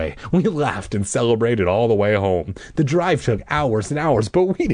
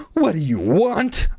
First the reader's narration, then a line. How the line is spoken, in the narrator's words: I cried